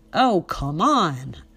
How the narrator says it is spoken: shouted

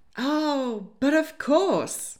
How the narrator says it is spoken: he exclaimed dramatically, a sparkle of mischief in his eye

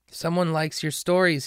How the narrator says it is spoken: he cried happily

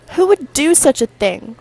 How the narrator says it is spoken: Rosie exclaimed as she broke down crying

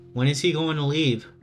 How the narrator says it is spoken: Toby said with an innocent tone in his shaky voice

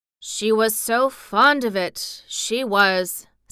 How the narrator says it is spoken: said Ben Weatherstaff slowly

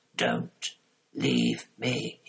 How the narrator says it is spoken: he whispered

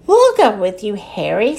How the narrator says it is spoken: said Ted

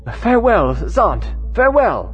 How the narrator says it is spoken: every voice cried with one impulse

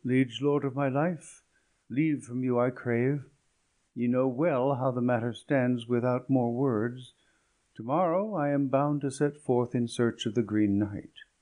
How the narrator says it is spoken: sadly Sir Gawain said

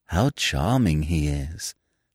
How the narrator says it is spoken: sighed Miss Peavy

